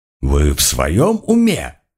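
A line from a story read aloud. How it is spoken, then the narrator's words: Indignant exclamation. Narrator (Russian): возмущенно воскликнул коронер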